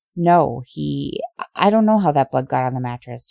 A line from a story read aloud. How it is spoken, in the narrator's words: she stammered